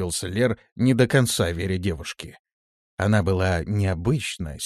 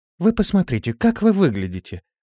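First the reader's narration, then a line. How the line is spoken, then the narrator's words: Calm but steely. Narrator (Russian): ответила она спокойно, но в ее голосе звучала сталь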